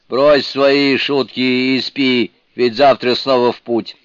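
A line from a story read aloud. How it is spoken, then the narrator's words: Mumbled. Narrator (Russian): дурень пробормотал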